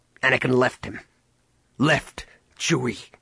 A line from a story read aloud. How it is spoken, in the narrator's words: Han spat